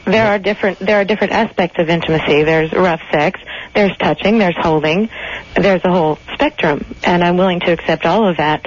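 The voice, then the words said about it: Flat, robotic delivery. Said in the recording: “You're talking like a robot.”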